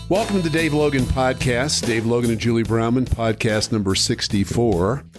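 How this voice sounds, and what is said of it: Hoarse, raspy worn-out voice. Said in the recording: “I've lost my voice a little bit. I think I was yelling at the TV so loud this weekend that I'm a bit compromised... you sound like you've been drinking whiskey and smoking Marlborettes”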